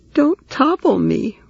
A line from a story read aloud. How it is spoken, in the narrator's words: Roy cried